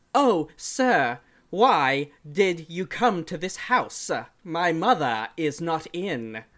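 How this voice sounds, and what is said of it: Bad put-on British accent. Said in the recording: “his British accent is ... It's, like, so fucking shitty ... He was doing, like, a transcontinental accent”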